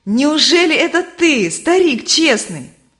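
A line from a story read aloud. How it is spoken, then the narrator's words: Joyful. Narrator (Russian): Стой Твердо радостно обратился к нему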